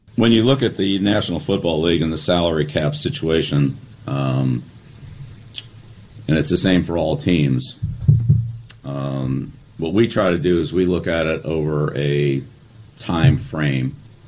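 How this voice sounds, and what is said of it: Pleasant, cheery speaking voice. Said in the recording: “pleasant Bill Belichick come out ... in a pretty cheery voice”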